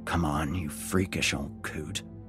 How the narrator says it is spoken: I muttered to myself

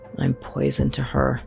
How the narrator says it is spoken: muttered

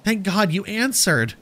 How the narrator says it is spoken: cried, her eyes frantic and haunted

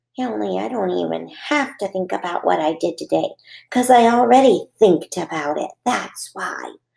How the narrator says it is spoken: I whispered to just myself

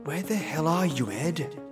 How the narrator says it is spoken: I whispered to myself

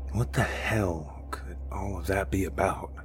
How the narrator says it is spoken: He asked quietly

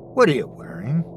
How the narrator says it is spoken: said in a nonchalant voice

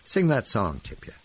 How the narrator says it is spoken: pleaded

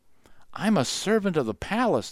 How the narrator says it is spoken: the girl whispered

